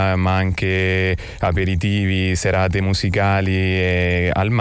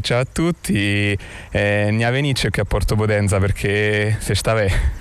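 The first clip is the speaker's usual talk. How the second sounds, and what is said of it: Speaks in local regional dialect. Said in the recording (Italian): “dialetto ... teatro dialettale ... anche in dialetto”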